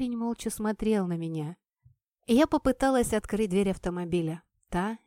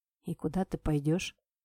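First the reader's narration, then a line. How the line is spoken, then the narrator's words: Lifeless, flat voice. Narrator (Russian): произнес азиат каким-то неживым голосом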